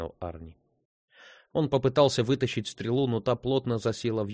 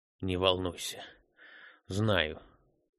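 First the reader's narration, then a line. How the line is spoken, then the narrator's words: Hoarse rasp. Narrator (Russian): прохрипел Арни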